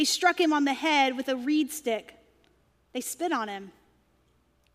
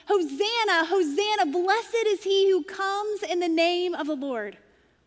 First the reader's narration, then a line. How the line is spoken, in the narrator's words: the crowd was shouting